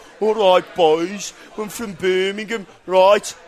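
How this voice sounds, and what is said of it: Put-on Birmingham Brummie accent. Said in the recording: “Brummer ... with an accent like ... Ozzy Osbourne ... It's that accent.”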